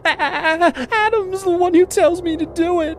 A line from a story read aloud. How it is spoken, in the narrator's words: she said, her voice blubbering